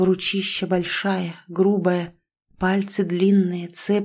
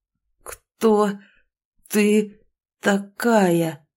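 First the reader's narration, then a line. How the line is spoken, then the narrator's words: Velvety growl through teeth. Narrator (Russian): Цедит сквозь зубы, рычит своим бархатным голосом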